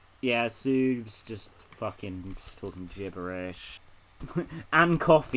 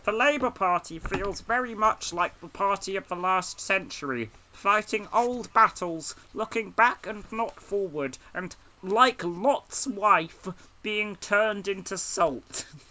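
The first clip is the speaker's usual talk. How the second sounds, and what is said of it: Keir Starmer impression. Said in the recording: “I'm just gonna give her a Keir Starmer voice.”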